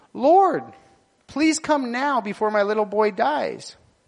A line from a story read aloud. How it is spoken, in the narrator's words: The official pleaded